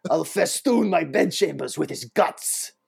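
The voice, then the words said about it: Daniel Day-Lewis as Bill the Butcher. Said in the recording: “I have a good impression of that guy... That was good... Honestly, that might be my favorite Daniel Day-Lewis... Bill the Butcher”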